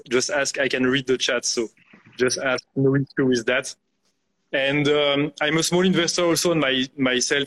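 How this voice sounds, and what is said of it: French accent. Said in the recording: “you can see with my accent, I grew up in France ... my accent”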